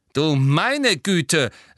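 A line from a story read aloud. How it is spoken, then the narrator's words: Spiteful, gloating. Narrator (German): sagte Professor McGonagall hämisch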